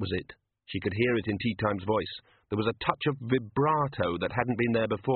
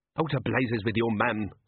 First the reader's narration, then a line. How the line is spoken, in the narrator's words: snapped tea time